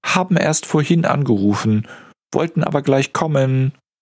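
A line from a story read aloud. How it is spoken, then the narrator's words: Calling from another room. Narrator (German): ruft Katja aus dem Labor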